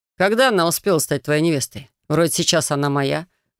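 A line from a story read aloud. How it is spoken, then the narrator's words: Mocking snort. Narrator (Russian): хмыкнул он, явно выводя соперника на эмоции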